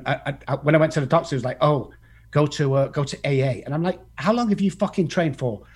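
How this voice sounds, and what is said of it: Distinct accent. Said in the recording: “I love the accent too... we got an accent to him too... yours sounds great, but we sound different to you”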